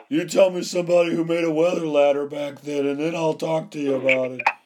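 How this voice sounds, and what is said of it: Imitates another person's voice. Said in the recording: “that's my Super Dave Osborne impersonation.”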